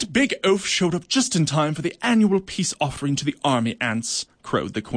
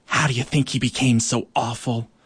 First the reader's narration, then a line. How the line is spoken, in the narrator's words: whispering to one another